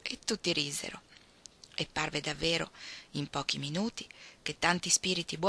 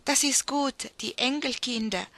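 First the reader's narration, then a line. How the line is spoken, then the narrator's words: Poor children exclaiming while eating. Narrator (Italian): esclamavano i poveri piccini fra un boccone e l'altro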